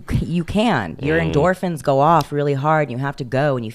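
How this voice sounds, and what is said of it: Usual voice. Nothing is said of it.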